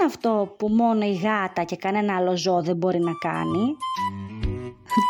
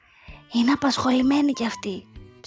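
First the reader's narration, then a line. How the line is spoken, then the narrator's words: Whispered. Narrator (Greek): ψιθυρίζει ο τωτός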